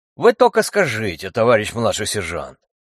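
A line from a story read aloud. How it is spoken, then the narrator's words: Deep bass, heavy accent. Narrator (Russian): Пробасил с ужасным хохлядским акцентом один из них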